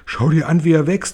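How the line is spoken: Shouting. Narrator (German): schrie Tante Tinkel

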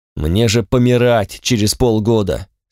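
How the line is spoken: Angry. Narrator (Russian): сказал я зло

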